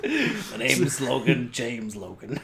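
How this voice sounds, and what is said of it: Suave, smooth character voice. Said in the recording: “in his most suave voice”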